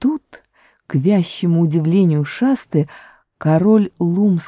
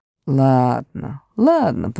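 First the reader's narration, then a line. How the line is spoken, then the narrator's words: Grumbling. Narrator (Russian): проворчал Лум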